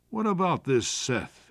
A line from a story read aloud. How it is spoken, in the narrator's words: asked